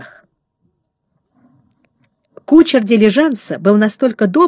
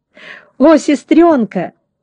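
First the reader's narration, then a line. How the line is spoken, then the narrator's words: Joyful exclamation. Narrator (Russian): радостно воскликнул Фредди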